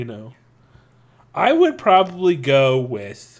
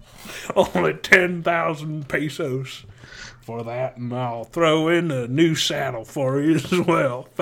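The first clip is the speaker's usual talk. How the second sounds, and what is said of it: Exaggerated Southern cattle-auctioneer accent. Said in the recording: “like a really big... like Southern businessman accent... Like, the guy that wears, like, the white cowboy outfit... The guy accent. That says sells the cattle at the cattle auction.”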